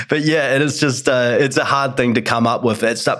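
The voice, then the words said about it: Speaks with a noticeable accent. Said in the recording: “Is that how bad my accent is? ... People love this accent. ... you're, um, exotic.”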